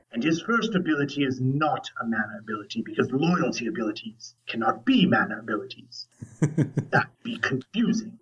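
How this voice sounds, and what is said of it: Gruff sea captain character voice. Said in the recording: “You really went into the sea captain from Simpsons there, I think. Just a little bit ... my voice is scratchy”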